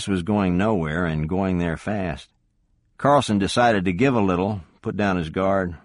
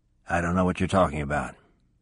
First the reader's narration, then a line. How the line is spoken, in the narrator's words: replied in a flat voice